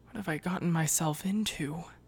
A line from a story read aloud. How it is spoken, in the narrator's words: He sighed